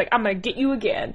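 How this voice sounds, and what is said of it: Imitates a character's voice. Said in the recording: “my Bash impression.”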